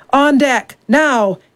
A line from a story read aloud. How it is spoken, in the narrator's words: he bellowed